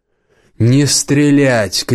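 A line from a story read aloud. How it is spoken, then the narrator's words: Shouted. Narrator (Russian): крикнул голос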